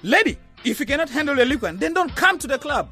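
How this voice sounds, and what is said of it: Shouting angrily. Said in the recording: “Why are you shouting at me?”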